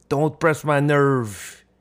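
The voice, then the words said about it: Vague imitation of a man's accent. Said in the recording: “my vague impression of uh, his accent”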